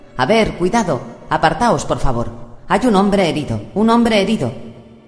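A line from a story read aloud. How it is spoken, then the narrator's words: Shouting. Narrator (Spanish): gritando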